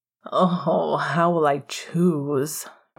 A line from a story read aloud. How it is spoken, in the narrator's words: Remus sighed